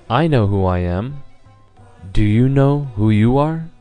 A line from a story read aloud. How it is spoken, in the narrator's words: Lord Buddha again calmly looked in his eyes and he said